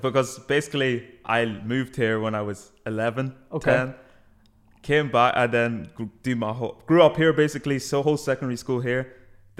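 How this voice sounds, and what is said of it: Mixed English London accent. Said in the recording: “You have an English accent? ... A bit of both, everyone says ... you had more of a London accent”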